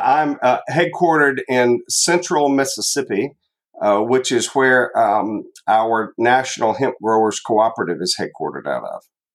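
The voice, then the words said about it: Southern United States accent. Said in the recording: “I am in the southern United States. In case you weren't able to pick up on the accent”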